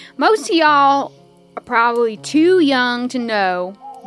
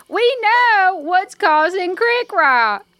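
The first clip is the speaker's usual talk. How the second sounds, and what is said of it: Raised, louder voice. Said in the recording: “raise my voice.”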